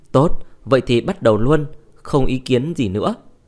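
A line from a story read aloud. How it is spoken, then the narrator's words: Laughing, old man. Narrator (Vietnamese): Diệp lão bật cười, vô chân thích chú mà nói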